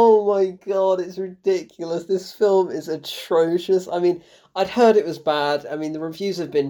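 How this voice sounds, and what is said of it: Usual voice. Nothing is said of it.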